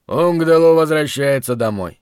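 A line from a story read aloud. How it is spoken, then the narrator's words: Loud proclamation. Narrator (Russian): я громко провозгласил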